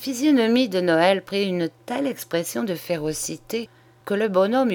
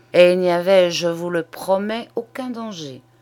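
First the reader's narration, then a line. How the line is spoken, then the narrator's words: Muffled, low reply. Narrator (French): répondit-il d'une voix sourde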